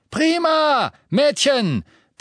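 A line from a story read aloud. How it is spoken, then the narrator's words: Shouting while running. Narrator (German): brüllte eine Gestalt, die durch den Staub auf sie zurannte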